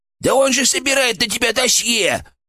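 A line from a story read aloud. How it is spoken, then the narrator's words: Shrill squeal. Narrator (Russian): взвизгнул у меня в голове фырк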